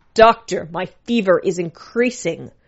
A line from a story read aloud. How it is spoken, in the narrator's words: cried out